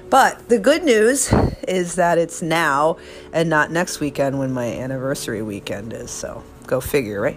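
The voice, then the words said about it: Hoarse, froggy throat. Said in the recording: “I feel like I have a frog in my throat, that's not good.”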